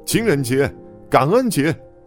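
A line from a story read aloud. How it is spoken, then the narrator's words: Children's rowdy jeering shouts. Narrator (Chinese): 其他孩子起哄似的喊着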